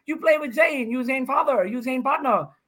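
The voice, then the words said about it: Put-on accent imitating others. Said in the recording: “what is this accent you're doing? Why does everybody who shouts you out, why do they have an accent?”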